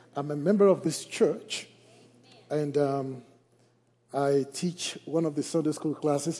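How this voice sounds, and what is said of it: Liberian West African accent. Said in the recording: “in case you think you are hearing an accent ... I am from the Republic of Liberia in West Africa”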